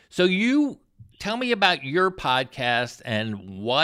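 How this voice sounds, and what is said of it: Usual voice. Nothing is said of it.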